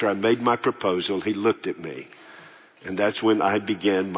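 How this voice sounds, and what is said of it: Usual voice. Nothing is said of it.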